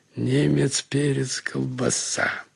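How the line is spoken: Muttered. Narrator (Russian): пробормотал он

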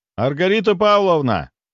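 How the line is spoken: Shouting. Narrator (Russian): прокричал

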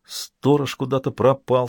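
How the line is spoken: Plain. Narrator (Russian): сказал он

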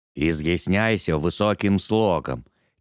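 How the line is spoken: Quiet speech. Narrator (Russian): тихо проговорил Корт

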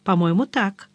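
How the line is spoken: Plain. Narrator (Russian): ответила Гвен

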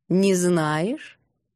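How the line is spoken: Ominous drawl. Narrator (Russian): Как-то нехорошо протянула Альфииса

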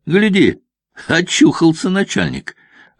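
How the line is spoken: Joyful slightly hoarse call. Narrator (Russian): радостно оповестил остальных чей-то хрипловатый голос

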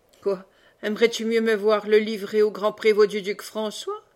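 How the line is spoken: Sneering question. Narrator (French): demanda Méloir en ricanant

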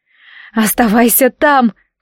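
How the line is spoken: Hoarse rasp. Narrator (Russian): прохрипела

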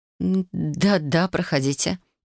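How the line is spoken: Mumbled. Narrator (Russian): промямлила она

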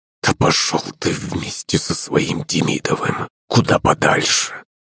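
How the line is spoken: Restrained angry hiss. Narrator (Russian): прошипел Иван, кое-как сдерживая себя

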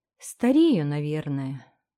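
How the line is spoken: Sighing. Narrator (Russian): вздохнула она

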